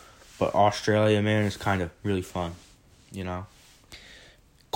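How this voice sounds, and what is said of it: Usual voice. Nothing is said of it.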